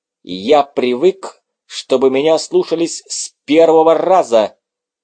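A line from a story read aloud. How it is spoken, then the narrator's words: Angry words through teeth. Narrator (Russian): сквозь зубы зло процедил Доминик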